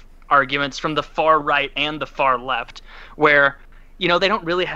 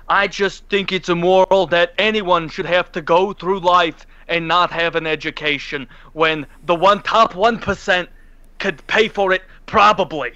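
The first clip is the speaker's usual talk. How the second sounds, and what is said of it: Imitates another person's voice. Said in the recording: “That's a great accent. My God, you're really nailing it.”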